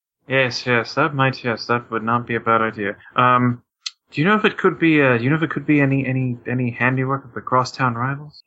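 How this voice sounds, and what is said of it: English accent. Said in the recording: “Judging by your accent, you probably don't play sports ... so much racism against the English”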